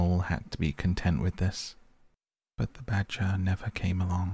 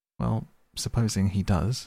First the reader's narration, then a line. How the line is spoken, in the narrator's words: said the mole